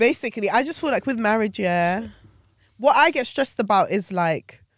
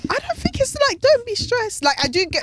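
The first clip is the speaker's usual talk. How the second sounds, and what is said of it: Voice abnormally high-pitched. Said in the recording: “my voice just went abnormally don't high for me”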